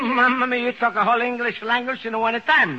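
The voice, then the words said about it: Continental foreign accent. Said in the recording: “I adore the continental type of foreign origin... I could listen forever to a continental accent. It's so romantic and different.”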